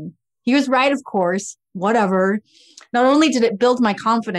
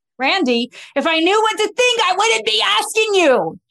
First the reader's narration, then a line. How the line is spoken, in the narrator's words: getting really frustrated with him blurting out